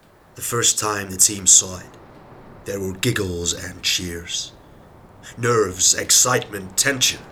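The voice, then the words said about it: Put-on accent, imitated voice. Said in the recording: “try and do the voice for him... Forgive the accent if it's not that good”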